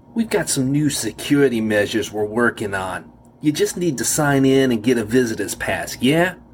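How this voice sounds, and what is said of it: New York accent. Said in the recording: “I could recognize his New York accent now.”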